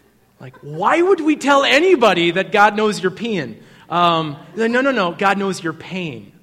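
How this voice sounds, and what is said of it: Usual voice. Nothing is said of it.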